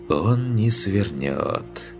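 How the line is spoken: Purring. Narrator (Russian): промурлыкала Атрея

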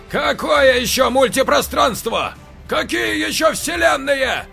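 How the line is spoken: Older man shouting. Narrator (Russian): закричал старший

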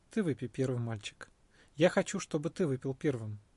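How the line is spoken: Soft voice. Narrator (Russian): Сиддхартха ответил мягким голосом

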